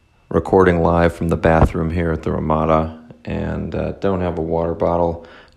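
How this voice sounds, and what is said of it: Slightly hoarse voice. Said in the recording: “the voice is a little hoarse”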